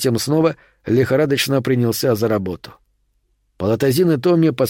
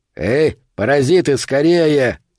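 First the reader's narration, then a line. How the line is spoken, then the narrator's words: Male bark. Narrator (Russian): рявкнул мужской голос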